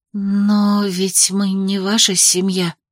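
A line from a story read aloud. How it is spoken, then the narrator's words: Whispered. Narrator (Russian): прошептала я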